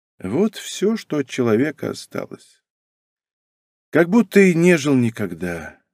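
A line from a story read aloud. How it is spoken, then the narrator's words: Sighing. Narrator (Russian): вздохнув, промолвила Лидия Адамовна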